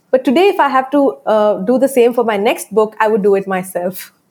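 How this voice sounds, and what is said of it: Indian English accent. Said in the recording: “my accent though it's it's not an american accent ... i am from india”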